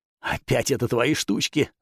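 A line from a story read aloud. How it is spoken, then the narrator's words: Growling. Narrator (Russian): зарычал Йосай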